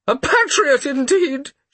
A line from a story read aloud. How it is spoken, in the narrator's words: she cried out